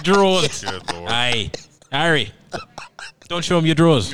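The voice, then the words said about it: Bad Irish accent sounding Australian. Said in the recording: “The Irish way? ... That's Australian. ... It's the worst accent.”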